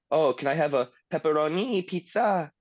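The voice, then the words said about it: Put-on Thai accent in English. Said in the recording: “you have to say it with like an accent, because that's the way a Thai person would say it in English ... you have to use the Thai accent”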